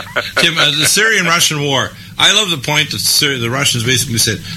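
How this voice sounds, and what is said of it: Usual voice. Nothing is said of it.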